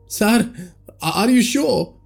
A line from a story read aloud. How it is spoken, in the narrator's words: Raju said, panting